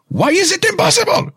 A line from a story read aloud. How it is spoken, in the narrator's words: I shout